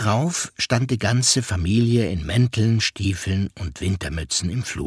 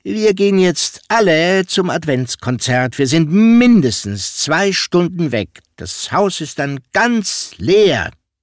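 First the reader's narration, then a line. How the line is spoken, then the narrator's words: Deliberately loud. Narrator (German): sagte Mats absichtlich laut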